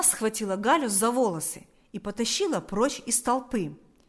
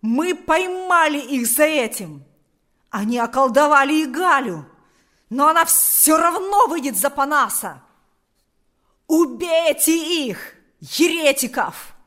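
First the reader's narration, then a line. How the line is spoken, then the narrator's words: Shouted. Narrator (Russian): крикнул Карп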